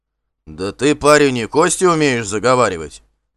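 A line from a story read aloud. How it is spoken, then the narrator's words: Displeased grumble. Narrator (Russian): С неудовольствием проворчал бородатый Вандер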